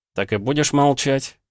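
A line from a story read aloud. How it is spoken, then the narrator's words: Snort, mouth full. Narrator (Russian): хмыкнул Пётр с набитым ртом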